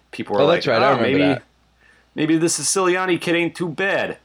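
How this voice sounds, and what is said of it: Put-on Brooklyn accent. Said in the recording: “Is that your Brooklyn accent?”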